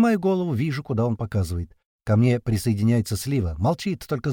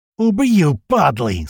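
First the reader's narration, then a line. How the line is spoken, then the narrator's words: Roaring again. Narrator (Russian): снова взревел Большой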